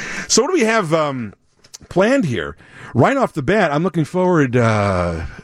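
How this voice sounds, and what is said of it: Usual voice. Nothing is said of it.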